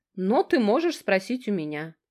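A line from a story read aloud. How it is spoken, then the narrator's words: Snide. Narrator (Russian): говорит она ехидно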